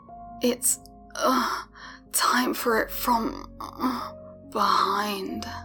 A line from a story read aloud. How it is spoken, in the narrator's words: he repeated himself, moaning